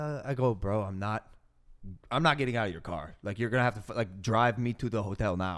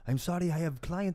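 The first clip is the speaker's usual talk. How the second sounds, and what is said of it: Put-on Russian accent. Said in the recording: “Russian guy. I don't know if this is a Russian accent.”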